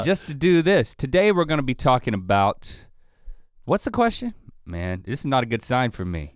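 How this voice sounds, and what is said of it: Low voice, sounds like a cold. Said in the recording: “My voice is sounding low ... Lando gave me this cold”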